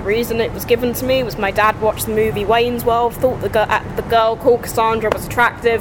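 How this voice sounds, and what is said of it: English accent with American influence. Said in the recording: “I sound a bit weird, that's why, because of my dad's influence ... my mum is English and my dad's American”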